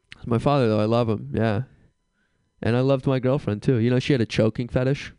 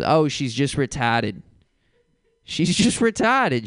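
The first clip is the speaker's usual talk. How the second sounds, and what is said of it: Heavy Boston accent, imitated. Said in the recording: “an old guy from Boston ... He just had a terrible accent.”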